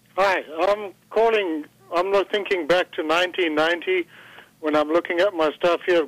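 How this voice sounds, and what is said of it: South African accent. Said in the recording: “That's a good old South African accent there.”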